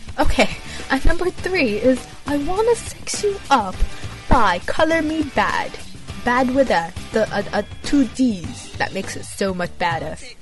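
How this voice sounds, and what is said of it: Poor attempt at British accent. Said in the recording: “add a Brit accent ... That was horrible. You know what? I'm never gonna get a British sound right.”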